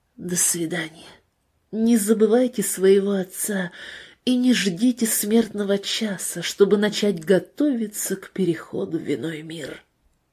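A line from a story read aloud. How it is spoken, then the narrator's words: Whisper. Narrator (Russian): он прошептал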